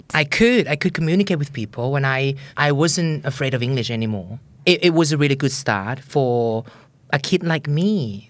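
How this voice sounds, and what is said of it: Thai-accented English. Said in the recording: “My accent was horrible, but I was proud of that accent because it was understandable ... There's nothing wrong with having a Thai accent. As long as it's understandable.”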